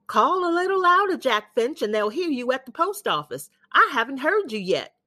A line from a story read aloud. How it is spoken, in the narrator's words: Miss Marty would yell back